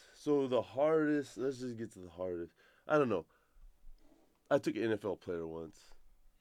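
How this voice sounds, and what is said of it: Choked-up, emotional voice. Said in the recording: “I'm getting all choked up ... I'm getting choked up”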